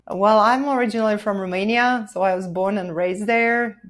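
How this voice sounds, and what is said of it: Slight foreign accent. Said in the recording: “You've got a little bit of an accent.”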